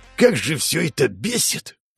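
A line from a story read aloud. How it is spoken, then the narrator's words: Angry male growl. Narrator (Russian): прорычал мужчина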